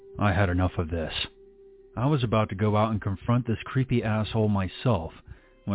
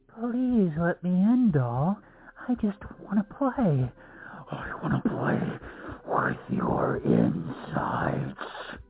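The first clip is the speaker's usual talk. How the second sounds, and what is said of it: Creepy menacing clown voice. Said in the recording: “muffled laughter, followed by the creepy voice”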